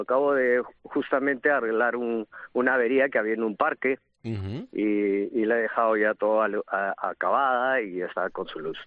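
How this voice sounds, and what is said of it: Peruvian Spanish accent. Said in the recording (Spanish): “noto un cierto acento a que eres de fuera ... yo nací en el Perú, soy peruano”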